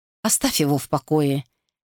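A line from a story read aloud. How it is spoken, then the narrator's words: Gentle remark. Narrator (Russian): мягко заметила Джанет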